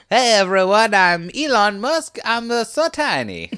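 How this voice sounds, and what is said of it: Put-on Italian accent. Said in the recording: “Is he also Italian? ... I can do that accent because I'm Italian”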